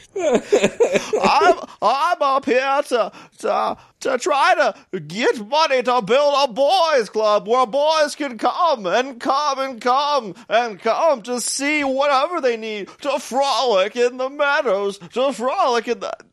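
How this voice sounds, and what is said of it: Poor Jimmy Stewart impression. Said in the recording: “this is my best Jimmy Stewart. I know it's not even close”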